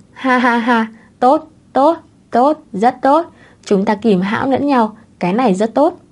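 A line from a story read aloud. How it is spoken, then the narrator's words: Old man laughing loudly. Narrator (Vietnamese): Cụ Cố Văn cười to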